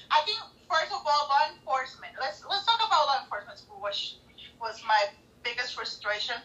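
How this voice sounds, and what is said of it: Speaks with a noticeable accent. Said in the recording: “whoever is having problems with my accent, I'm so sorry. But when I get frustrated, it gets worse and worse.”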